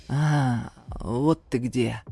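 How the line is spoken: Growling. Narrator (Russian): прорычал Ибрагим

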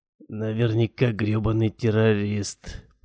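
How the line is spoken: Muttered. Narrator (Russian): пробормотал

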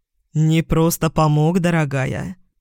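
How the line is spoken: Smirking. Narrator (Russian): хмыкнул Яспер

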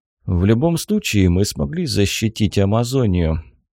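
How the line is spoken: Heavy sigh. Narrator (Russian): тяжело вздохнул Хиро

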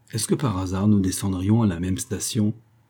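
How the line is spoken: Smiling murmur. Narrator (French): murmura Paddy en souriant

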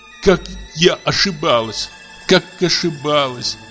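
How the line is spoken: Tearful sigh. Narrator (Russian): вздохнула она сквозь слезы

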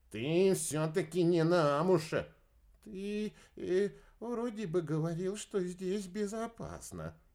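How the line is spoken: Mumbling. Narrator (Russian): промямлил Энди

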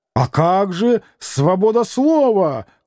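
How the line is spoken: Witty shout. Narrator (Russian): крикнул некий остроумец

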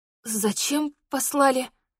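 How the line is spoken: Barely forced out. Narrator (Russian): едва сумела выдавить я

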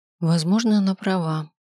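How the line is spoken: Wistful sigh. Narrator (Russian): вздохнула я, вспомнив, что мое время на этом свете ограничено

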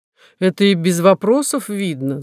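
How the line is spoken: Laughing. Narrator (Russian): засмеялся Журба

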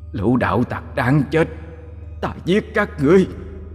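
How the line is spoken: Furious howling. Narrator (Vietnamese): Nó giận dữ gào lên

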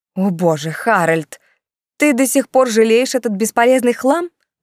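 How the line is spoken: Exclaiming. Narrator (Russian): воскликнула маркиза

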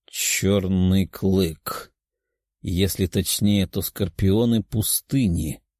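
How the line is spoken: Muttering in realization. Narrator (Russian): бормотал, поняв, кто мог организовать восстание

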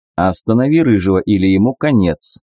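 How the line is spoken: Calm. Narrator (Russian): спокойно сказал я

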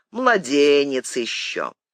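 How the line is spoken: Muffled, hollow. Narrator (Russian): Канцлер Головкин ... глухо молвил

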